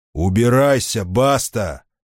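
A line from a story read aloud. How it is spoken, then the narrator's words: Very loud. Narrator (Russian): сказал он так громко, что это имя проникло в самое сердце мрака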